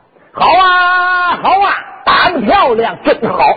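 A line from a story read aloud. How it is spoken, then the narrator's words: Someone shouting loudly. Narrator (Chinese): 有人高喊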